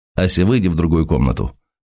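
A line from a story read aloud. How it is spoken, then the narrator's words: Curt dry command. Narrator (Russian): сухим тоном приказал Сергей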